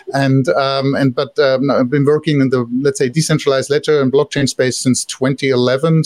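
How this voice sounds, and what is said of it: German accent in English. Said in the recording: “originally I'm from Germany, so I can't hide my accent.”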